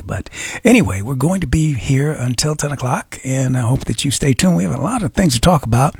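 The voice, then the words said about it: A little raspy voice. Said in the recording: “raspy voice, but I don't know what it is, but it's just a little raspy.”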